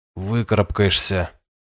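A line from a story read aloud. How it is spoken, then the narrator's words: Gruff mutter. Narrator (Russian): буркнул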